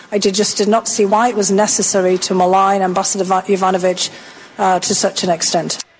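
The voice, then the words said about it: British accent. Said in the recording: “You like that accent? Pretty good, huh? She's British.”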